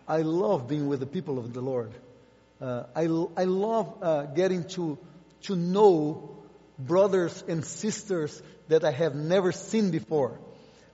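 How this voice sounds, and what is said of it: Noticeable foreign accent. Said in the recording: “You better get accustomed to my accent.”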